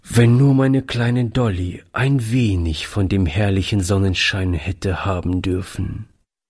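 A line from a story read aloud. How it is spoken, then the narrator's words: Sad remark. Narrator (German): fügte er traurig hinzu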